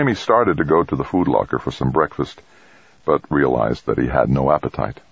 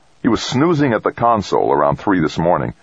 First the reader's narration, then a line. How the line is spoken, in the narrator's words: Dex said angrily